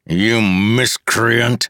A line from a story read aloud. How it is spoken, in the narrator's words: the man growled